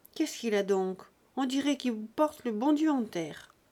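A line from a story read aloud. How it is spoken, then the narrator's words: Old man adding. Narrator (French): le vieux ajouta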